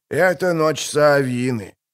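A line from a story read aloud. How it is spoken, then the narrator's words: Old man's solemn tone. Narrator (Russian): продолжал дед торжественным тоном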